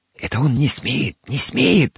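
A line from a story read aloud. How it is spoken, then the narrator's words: Whisper. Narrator (Russian): зашептала Федосия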